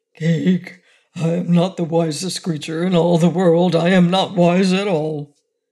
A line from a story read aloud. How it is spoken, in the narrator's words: he gave a low groan of despair and said